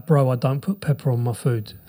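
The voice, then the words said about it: Put-on accent. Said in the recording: “With your accent, that was awesome.”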